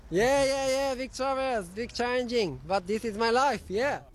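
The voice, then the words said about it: Foreign accent, similar to Kazakh. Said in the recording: “You sure that wasn't Borat in a onesie? ... he's Kazakhstani ... accent. Yeah, different, yeah. Slight similarity, but different.”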